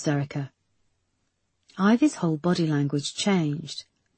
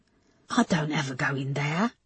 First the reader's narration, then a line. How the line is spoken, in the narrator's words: Ivy whispered